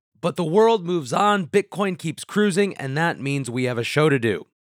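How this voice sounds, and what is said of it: Rough, strained recovering voice. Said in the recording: “as you can hear, I am a bit better today, but still recovering... My voice is still a bit of a wreck.”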